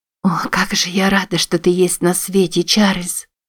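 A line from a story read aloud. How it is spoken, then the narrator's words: Whisper. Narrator (Russian): прошептала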